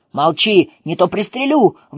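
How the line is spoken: Furious yelling. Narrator (Russian): в бешенстве заорал на него

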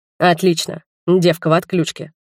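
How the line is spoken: Thug's smirking snort. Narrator (Russian): хмыкнул один из нападавших

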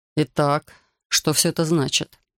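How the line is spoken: Forced calm, trembling voice. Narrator (Russian): Он старался говорить спокойно, но голос дрожал, выдавая сильное волнение

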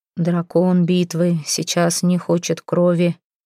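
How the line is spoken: Muffled, lips not moving. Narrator (Russian): глухо заговорил Берг, но губы его не двигались

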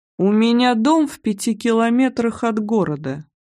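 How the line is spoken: Lazy bored tone. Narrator (Russian): оповестил он таким ленивым, скучающим тоном, будто ничего страшного не происходило

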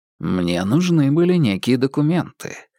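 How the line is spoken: Calm reply. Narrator (Russian): спокойно ответил Холмс

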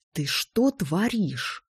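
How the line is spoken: Hiss. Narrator (Russian): прошипел он

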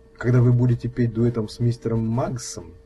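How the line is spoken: Tender purr. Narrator (Russian): ласково промурлыкала она

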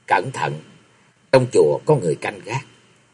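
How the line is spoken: Very quiet. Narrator (Vietnamese): Di Kế Quan nói rất khẽ

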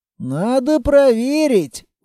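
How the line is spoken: Sighing suggestion. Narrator (Russian): вздохнув, предложил Кейко

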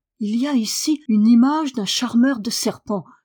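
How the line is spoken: Exclaiming. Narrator (French): s'écria

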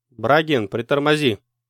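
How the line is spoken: Shout. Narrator (Russian): крикнул Павел

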